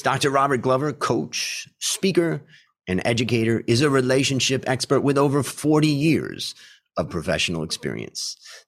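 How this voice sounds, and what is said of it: Announcer-style radio voice. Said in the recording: “I've been practicing my radio voice”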